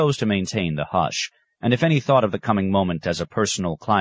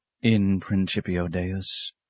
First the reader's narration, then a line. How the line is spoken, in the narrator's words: he said softly